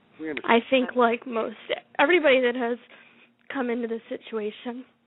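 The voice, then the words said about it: Emotional, shaky voice. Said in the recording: “I'm all emotional ... I am just a wreck.”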